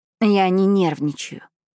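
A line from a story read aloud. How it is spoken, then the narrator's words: Tired. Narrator (Russian): устало сказала я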